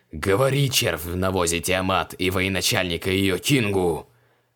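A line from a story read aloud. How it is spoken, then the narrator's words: Growling. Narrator (Russian): прорычал Креол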